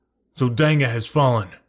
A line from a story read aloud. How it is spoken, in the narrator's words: I cried